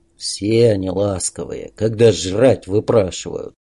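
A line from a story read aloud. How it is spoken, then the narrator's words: Gloomy. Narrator (Russian): Мрачно разбавил волну всеобщего ликования недолюбливающий кирпича Олег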